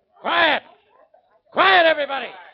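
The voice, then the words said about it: Loud shouting voice. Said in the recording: “can't you people be quiet?... if you lower your voice... If I lower my voice?”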